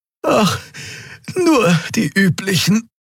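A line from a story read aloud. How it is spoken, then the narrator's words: Panting. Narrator (German): keuchte die Draxyl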